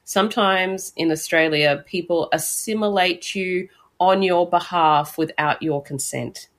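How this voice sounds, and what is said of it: Somewhat Australian accent, slight French lilt. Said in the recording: “this voice indicates that I have been here for some time to have a somewhat Australian accent. There are, you know, every now and then French lilts and English bits”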